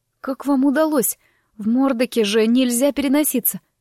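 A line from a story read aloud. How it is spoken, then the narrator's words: Hoarse wheeze. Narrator (Russian): прохрипела я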